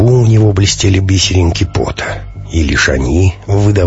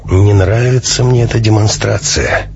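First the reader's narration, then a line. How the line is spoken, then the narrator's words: Gloomy. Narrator (Russian): мрачно произнес товарищ Альфа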